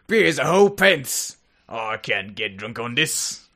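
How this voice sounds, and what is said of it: Vaguely Australian put-on accent. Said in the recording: “My accent's offensive and vaguely Australian.”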